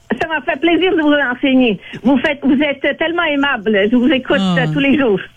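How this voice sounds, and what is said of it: French spoken with an accent. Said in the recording (French): “J'adore ton accent. ... C'est tellement beau”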